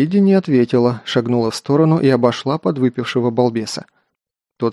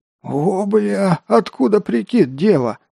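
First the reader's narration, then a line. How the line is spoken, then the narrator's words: Surprised hoarse rasp. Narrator (Russian): удивленно прохрипел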